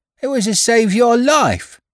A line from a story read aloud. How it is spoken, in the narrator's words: cried the boy